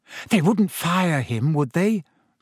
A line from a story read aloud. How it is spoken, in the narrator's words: said Hermione anxiously